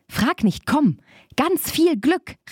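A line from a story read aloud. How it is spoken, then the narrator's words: Calling out. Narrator (German): rief Barbe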